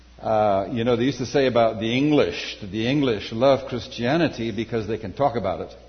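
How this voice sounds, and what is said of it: Scottish accent with Southern African mix. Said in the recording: “I am a Scot, but I've also spent significant time in Southern Africa, so my accent's a little bit of a Heinz's 57 varieties.”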